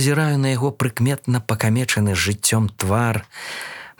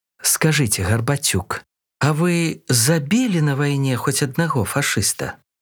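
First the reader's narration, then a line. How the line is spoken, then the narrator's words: Forced calm question. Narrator (Belarusian): Пытаюся я спакойна, наколькі гэта мне ўдаецца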